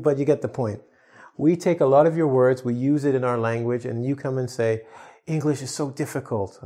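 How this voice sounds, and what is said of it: Usual voice. Nothing is said of it.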